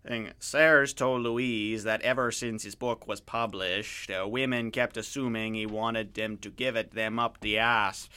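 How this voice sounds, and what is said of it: Crude put-on French-Canadian accent. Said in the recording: “putting on a crude attempt at a French-Canadian accent ... I sound like I'm crossing an Ontario hick accent a little bit, you know, sort of that sort of Letterkenny accent with sort of a Frencher accent.”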